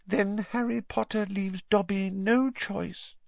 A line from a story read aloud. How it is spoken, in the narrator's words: said the elf sadly